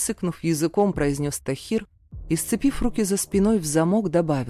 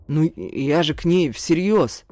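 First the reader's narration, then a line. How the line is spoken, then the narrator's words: Sullen defensive mumble. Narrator (Russian): начал оправдываться мой обидчик и угрюмо пробурчал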